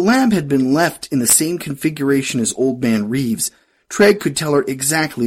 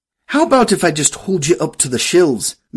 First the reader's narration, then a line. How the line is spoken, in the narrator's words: Myrna snapped